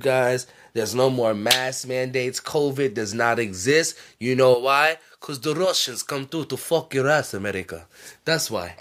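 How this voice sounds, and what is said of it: Put-on comedic accent. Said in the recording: “that was a good one with the accent”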